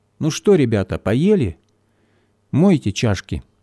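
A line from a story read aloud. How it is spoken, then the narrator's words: Calm joking. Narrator (Russian): спокойно пошутил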